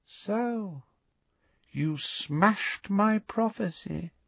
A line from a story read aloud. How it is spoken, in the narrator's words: said Voldemort softly